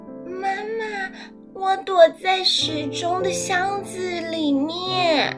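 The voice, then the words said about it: Tiny, small child's voice. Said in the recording (Chinese): “小小的声音说”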